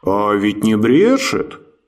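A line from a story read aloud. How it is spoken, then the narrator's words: Deep bass voice. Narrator (Russian): пробасил один из стражников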